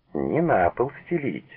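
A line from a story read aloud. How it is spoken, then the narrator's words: Laughing. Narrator (Russian): засмеялась Клавдия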